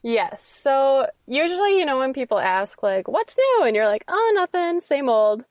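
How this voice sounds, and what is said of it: Strong Minnesotan accent. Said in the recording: “sounds way, way more Minnesotan than I do ... her awesome accent”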